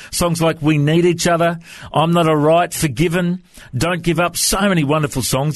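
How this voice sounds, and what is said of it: Australian accent. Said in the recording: “have you ever chatted to many people from Australia before? Is my accent okay?”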